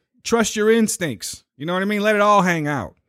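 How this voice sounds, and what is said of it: Slight put-on Italian accent. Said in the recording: “there's a little bit of an Italian accent now ... punctuate it with some accent ... that was a switch”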